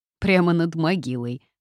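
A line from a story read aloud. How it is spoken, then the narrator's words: Snort. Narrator (Russian): хмыкнула Эля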